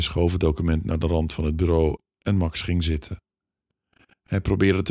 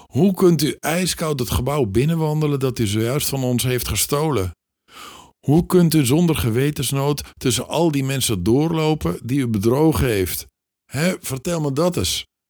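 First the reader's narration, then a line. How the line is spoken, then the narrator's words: Wanted to shout. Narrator (Dutch): Hij wilde schreeuwen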